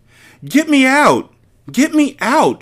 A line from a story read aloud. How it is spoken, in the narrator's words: she cried frantically